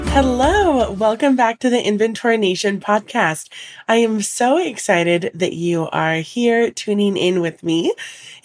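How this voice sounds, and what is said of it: Slightly congested, altered voice. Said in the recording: “I am recovering from a cold, so my voice is a little bit different.”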